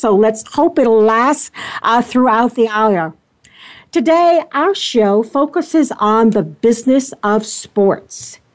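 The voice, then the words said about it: Slightly hoarse voice. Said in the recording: “I apologize today for my voice. I'm a little bit hoarse”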